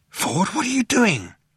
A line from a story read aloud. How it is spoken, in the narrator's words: he asked in an amazed whisper